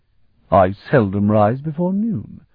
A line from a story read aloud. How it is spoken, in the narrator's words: the young man said stiffly